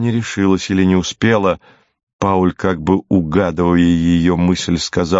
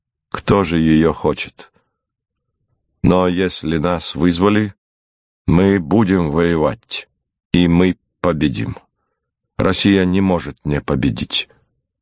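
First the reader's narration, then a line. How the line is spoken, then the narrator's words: Calm. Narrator (Russian): Пауль Сепп спокойно отвечал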